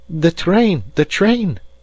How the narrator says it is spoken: cried he

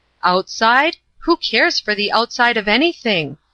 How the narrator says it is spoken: asked the chief

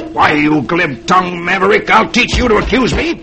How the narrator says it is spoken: the stranger snarls

